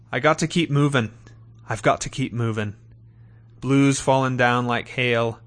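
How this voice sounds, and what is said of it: Scottish-Australian accent. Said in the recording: “in his awesome Scottish-Australian accent.”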